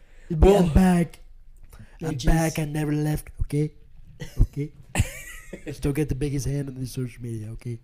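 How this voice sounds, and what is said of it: Imitates another person's voice. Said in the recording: “does a really good Trump impression. ... That wasn't the best. It was all right.”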